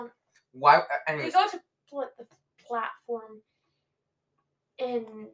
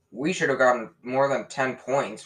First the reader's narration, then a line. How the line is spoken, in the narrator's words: Ron grumbled